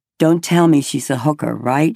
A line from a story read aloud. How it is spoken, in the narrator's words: I said